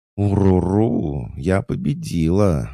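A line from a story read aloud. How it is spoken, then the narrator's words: Happy purr. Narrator (Russian): радостно промурлыкала Устинья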